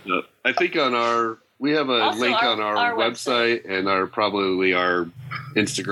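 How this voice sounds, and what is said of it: Usual voice. Nothing is said of it.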